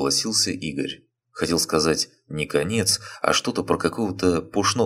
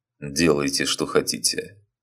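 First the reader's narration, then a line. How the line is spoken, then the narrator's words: Resigned, sighing. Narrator (Russian): махнул рукой Григорий Иванович и вздохнул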